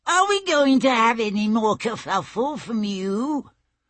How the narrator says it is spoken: she said in a high, squeaking voice

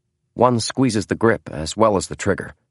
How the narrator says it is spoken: said the clerk

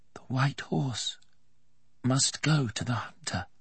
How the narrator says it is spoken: Will said to himself very softly

